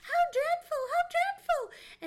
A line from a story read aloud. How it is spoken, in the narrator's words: excitedly and cried